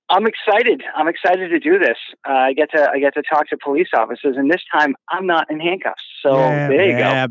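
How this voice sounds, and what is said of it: Boston accent. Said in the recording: “he's got a Boston accent. I mean, it's fucking awesome.”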